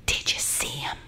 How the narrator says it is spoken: whispered

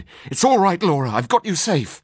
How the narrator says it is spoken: cried

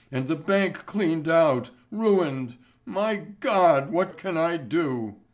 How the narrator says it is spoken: he wailed

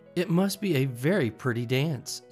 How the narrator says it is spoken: said Alice timidly

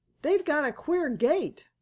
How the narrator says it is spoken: cried Joe

